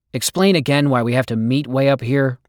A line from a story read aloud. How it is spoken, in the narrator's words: Will said